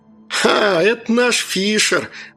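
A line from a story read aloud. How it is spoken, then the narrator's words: Pleased laugh, young lad. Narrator (Russian): довольно засмеялся парнишка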